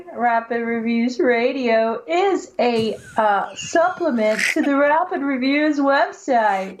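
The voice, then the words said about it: Commercial announcer voice. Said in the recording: “You sound so interested saying it. ... doing my best announcer voice for commercials ... Commercial voice”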